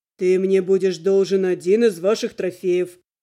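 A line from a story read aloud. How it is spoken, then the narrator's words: Calm reply. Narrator (Russian): спокойно ответил друид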